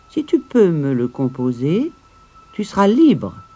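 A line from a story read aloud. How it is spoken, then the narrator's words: Plain. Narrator (French): lui avait-elle dit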